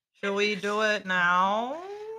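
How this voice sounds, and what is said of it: Imitates a cat's voice. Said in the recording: “a really good cat impersonation.”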